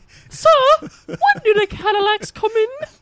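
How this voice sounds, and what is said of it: Soft dainty high old lady voice. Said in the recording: “I high. Have a soft and dainty old lady voice. ... in that lady voice”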